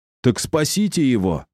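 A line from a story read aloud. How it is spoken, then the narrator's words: Shouted. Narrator (Russian): крикнул Кирилл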